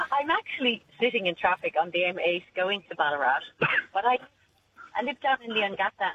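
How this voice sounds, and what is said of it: Irish accent. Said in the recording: “Lovely to hear your accent. ... lovely to hear an Irish accent too”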